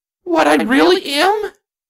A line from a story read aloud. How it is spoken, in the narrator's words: Twilight said to herself in a panicked tone